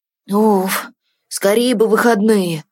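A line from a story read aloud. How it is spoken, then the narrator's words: Grumbling. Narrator (Russian): проворчал Тин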